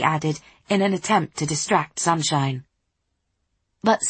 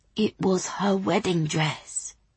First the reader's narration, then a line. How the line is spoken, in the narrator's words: said, almost in a whisper